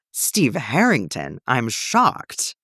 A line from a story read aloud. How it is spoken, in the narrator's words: Eddie exclaims